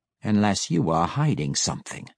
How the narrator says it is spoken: Matron Malice growled at Deenan, a threat so cold and wicked

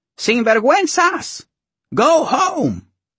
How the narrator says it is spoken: abuelas, with their night hair swirled around spiky rollers, shouted at us from their apartment windows

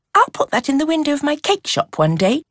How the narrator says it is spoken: Eve said brightly

